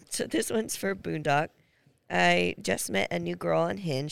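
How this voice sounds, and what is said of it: Hoarse, fading voice. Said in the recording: “Excuse my voice. Is going out”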